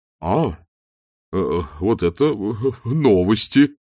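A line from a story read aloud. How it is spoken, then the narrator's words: Uncertain. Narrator (Russian): неуверенно произнес Чудакулли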